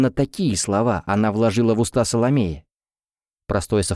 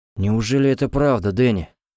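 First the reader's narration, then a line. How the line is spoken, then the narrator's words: Sighed. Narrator (Russian): вздохнул Тофлер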